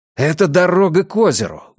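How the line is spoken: Exclaiming. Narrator (Russian): воскликнул я

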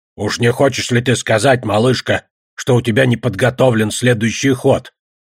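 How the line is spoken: Grumbling. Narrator (Russian): проворчал Одноглазый

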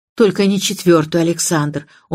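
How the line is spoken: Pleading young woman. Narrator (Russian): умоляющим тоном произнесла девушка

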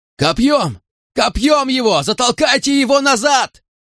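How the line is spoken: Shouting. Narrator (Russian): кричал Питерс

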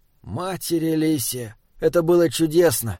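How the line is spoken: Contented sigh. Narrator (Russian): Он вздохнул, впервые за долгое время не питая зла к окружающему миру

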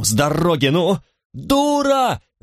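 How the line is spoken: Terrified yell. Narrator (Russian): завопил он, и в глазах его мелькнул неподдельный ужас

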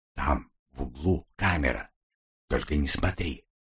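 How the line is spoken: Whisper. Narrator (Russian): прошептал он

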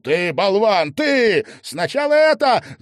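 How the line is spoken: Boy shouting back. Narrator (Russian): закричал в ответ мальчик

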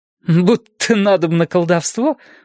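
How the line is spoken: Snorted. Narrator (Russian): фыркнула она

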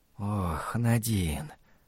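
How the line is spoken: Whispered. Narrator (Russian): прошептал он

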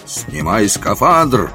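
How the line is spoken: Menacing bark. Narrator (Russian): рявкнул я грозно

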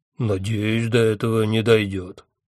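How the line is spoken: Grumble. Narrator (Russian): проворчал джин

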